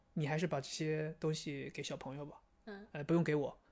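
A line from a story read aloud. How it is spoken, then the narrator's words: Very quiet whisper in ear. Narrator (Chinese): 特别小声在我耳边说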